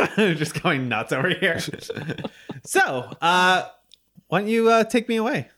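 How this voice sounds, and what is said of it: Usual voice. Nothing is said of it.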